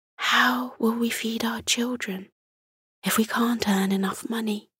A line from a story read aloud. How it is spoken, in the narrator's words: Martha whispered to Morty